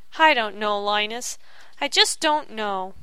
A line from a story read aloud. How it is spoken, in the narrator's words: he said, sighing